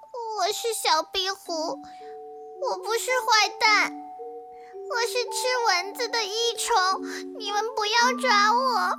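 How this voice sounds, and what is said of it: Quiet, timid small voice. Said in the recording (Chinese): “低着头小声的说”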